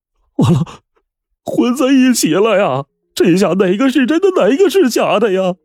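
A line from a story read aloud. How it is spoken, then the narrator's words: Tearful voice. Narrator (Chinese): 张寒奎带着哭腔说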